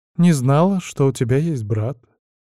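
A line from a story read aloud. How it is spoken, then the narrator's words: Calm indifferent young girl. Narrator (Russian): в том же спокойно равнодушном тоне откликнулась соплячка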